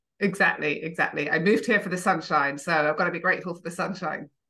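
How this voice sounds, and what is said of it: UK English accent. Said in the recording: “I can hear that UK accent.”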